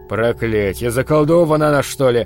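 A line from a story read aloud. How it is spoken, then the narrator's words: Muttered. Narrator (Russian): пробормотал Бакнер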